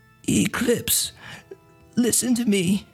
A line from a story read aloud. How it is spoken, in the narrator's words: she rasps